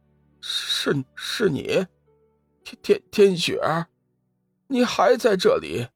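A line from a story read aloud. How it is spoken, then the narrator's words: Startled, trembling voice. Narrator (Chinese): 通天真人闻言微微一惊，声音有些颤抖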